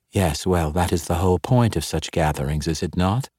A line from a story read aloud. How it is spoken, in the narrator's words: purred back